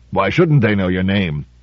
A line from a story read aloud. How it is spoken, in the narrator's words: Drumble growling